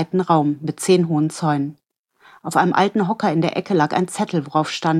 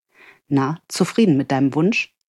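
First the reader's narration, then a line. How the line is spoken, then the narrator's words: Soft laughing. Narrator (German): Sie lachte leise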